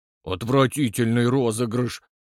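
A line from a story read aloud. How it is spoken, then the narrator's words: Through gritted teeth. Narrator (Russian): процедил Толстой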